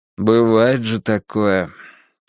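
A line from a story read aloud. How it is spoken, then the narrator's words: Father's heavy sigh. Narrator (Russian): тяжело вздохнул отец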